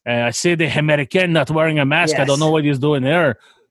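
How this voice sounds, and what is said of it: Put-on French accent. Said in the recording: “I used a French accent”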